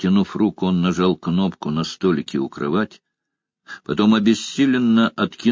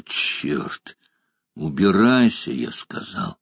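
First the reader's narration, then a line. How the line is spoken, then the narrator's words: Growling. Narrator (Russian): Стив прорычал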